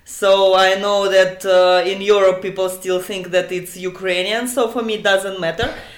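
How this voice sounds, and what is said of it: Russian accent. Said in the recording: “You're the first person I've interviewed from Russia, and I'm sure our listeners have heard that from your accent.”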